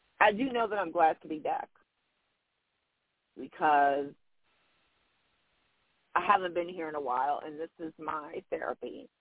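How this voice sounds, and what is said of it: Emotional, tearful voice. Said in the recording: “I don't know why I'm getting emotional... I can be emotional... not tears of sadness, tears of joy.”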